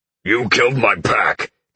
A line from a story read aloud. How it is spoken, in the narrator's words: the werewolf growled